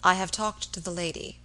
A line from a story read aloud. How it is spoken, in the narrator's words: he said quietly